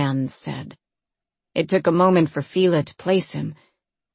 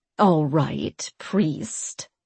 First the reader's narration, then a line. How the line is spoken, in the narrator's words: the queen said, her voice dripping with uncommon disdain